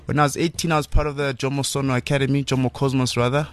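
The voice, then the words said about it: South African Northwest accent. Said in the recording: “my accent always gives it away. That I'm from the Northwest, man.”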